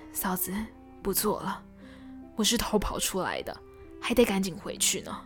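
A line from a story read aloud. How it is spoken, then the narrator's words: Sighing. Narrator (Chinese): 春生叹了一口气，说道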